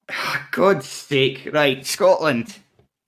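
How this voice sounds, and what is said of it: Broad Scottish accent. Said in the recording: “I don't know why I said it in such a kind of broad accent.”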